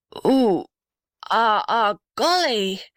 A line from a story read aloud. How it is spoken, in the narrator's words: groaned the blue gum in a strange voice